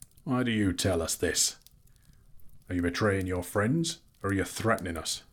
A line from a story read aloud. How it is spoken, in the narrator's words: asked Bard grimly